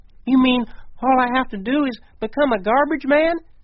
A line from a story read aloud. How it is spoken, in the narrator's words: Bill gasped